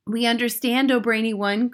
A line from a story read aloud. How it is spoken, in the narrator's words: cried the audience